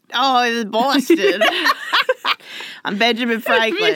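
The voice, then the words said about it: Exaggerated Boston accent. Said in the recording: “a heavy Boston accent”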